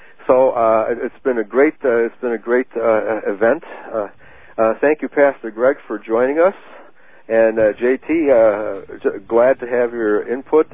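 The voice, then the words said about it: Hoarse, tired voice. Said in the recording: “I'm starting to get hoarse too”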